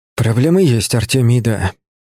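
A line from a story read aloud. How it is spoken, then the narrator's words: Exhaled. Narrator (Russian): выдохнул я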